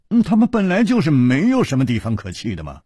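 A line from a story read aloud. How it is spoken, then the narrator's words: Sighing. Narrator (Chinese): 楚留香叹了一口气说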